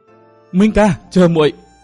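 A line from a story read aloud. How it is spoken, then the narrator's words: Desperate scream. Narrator (Vietnamese): Nàng gào lên trong tuyệt vọng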